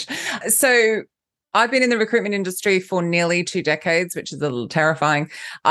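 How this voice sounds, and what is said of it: Australian accent with British influence. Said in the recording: “I'm Australian, but I live in London, so I don't really know what I sound like... I'm Aussie British”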